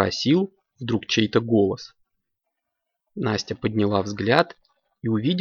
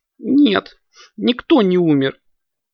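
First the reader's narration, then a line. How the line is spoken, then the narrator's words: Girl sobbing. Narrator (Russian): всхлипнула девочка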